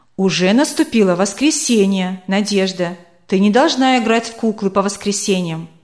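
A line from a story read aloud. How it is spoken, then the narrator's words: Stern mother. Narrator (Russian): мама строго сказала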